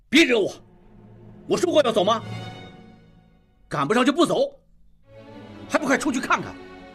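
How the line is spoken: Angry. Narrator (Chinese): 应季大怒

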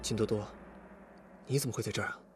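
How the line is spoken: Low question. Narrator (Chinese): 李富贵低声问

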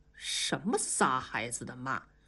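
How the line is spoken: Muttering. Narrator (Chinese): 接待员不停地嘀咕

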